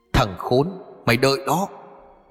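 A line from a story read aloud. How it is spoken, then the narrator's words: Pained shout. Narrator (Vietnamese): Nó lúc này đau đớn hét lên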